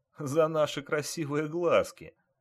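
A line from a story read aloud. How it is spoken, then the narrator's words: Group bursting into laughter. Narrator (Russian): расхохотались студенты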